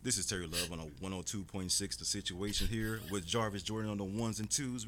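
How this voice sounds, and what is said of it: Radio announcer voice. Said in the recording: “Everyone said I had a radio voice all my life”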